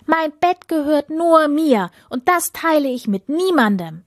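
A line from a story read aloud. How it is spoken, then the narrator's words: Called out. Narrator (German): rief die Prinzessin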